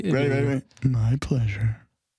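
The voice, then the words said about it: Put-on sexy voice, higher pitch. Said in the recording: “try my Paul sexy voice ... Why did his voice go higher whenever he was trying to sound”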